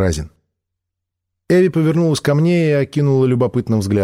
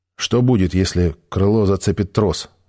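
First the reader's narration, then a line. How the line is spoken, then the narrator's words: Plain. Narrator (Russian): спросил я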